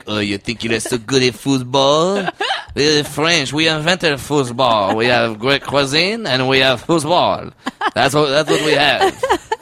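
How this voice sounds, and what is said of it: Arrogant put-on French accent. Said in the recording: “some really arrogant French guy ... Is this a good French accent? ... Is that the villain from Ratatouille?”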